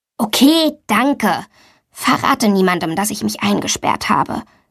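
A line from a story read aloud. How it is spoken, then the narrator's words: Soft plea. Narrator (German): bittet sie leise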